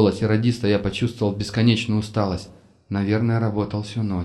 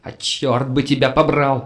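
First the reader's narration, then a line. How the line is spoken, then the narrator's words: Yelling, etiquette forgotten. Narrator (Russian): заорал я, начисто забыв об этикете радиопереговоров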